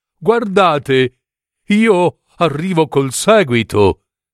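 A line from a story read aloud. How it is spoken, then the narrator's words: Darning needle exclaiming. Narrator (Italian): esclamò l'ago da rammendo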